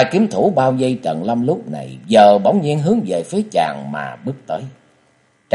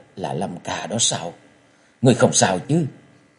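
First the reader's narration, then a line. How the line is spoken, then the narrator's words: Trembling voice. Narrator (Vietnamese): giọng run run nói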